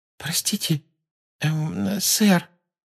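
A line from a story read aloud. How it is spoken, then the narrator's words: Timid question. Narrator (Russian): робко спросила Парвати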